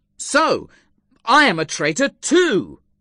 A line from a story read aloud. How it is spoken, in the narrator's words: I exclaimed angrily